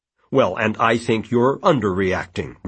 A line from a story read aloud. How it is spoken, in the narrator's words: Richard said